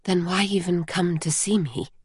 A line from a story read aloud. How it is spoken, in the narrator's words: she whispered